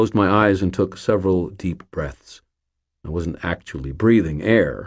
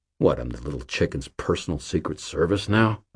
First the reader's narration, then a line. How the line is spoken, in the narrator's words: I grumbled